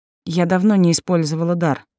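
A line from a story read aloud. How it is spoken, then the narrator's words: Barely steady trembling voice. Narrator (Russian): произнесла, с трудом совладав с дрожащим голосом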